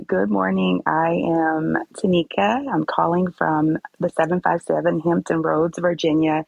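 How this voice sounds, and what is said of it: Voice sounds like a cold. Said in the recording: “I'm not going to say I have a cold, but I hope you guys can hear me.”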